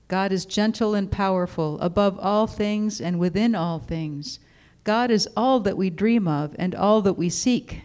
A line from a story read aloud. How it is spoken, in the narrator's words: said Old Turtle